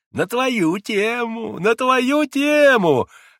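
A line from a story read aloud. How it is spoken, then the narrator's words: Gleeful giggling. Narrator (Russian): радостно хихикал он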